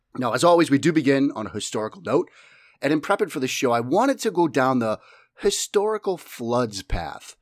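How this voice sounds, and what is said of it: Strong Boston accent. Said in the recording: “my flagrant Boston accent”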